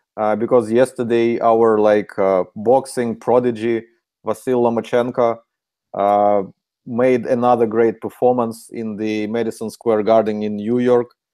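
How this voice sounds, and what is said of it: Ukrainian accent. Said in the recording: “This is Ukrainian accent.”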